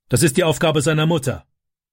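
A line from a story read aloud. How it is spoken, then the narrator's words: Angry answer. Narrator (German): antwortete Vater wütend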